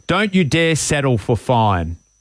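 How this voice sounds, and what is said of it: Imitates another person's accent. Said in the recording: “Can you say it with his accent? It sounds better.”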